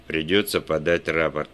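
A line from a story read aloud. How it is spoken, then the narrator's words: Through gritted teeth. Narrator (Russian): процедил Уэлч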